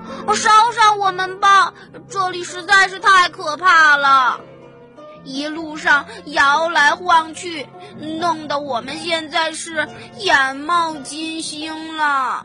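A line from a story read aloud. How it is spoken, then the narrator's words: Chorus of shouts. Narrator (Chinese): 公鸡、母鸡一起喊道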